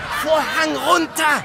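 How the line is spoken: Frantic director shouting. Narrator (German): schrie der Regisseur kurz vor einem Nervenzusammenbruch

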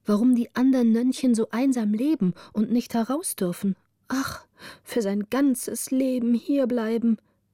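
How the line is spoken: Sighing. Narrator (German): sagte das eine oder andere seufzend

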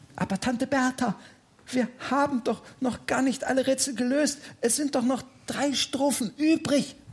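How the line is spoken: Whispering. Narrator (German): flüsterte Oliver

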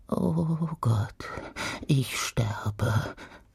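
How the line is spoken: Whispering. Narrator (German): flüsterte

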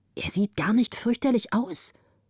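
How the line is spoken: Whispered. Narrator (German): flüsterte sie

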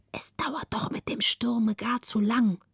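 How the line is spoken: Relieved whisper. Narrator (German): Margareta atmete frei auf, legte sich auf die andere Seite und flüsterte

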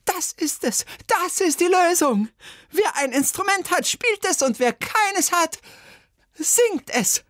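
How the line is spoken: Screaming. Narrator (German): Bertha Schüssel aber schrie

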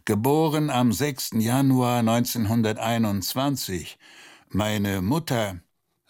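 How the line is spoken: Groaning. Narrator (German): stöhnte er

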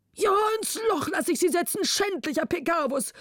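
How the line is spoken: Exhausted king calling. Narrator (German): rief der König erschöpft

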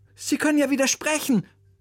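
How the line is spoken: Calling out. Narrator (German): rief Oliver seinem Musiklehrer zu

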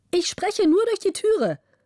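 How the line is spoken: Bright female call. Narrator (German): rief die helle Stimme der Gräfin

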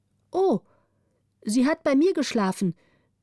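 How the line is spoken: Calling out. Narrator (German): rief die Waise

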